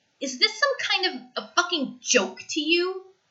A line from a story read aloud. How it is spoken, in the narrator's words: He snarls